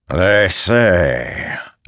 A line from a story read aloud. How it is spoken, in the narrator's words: Abadai growled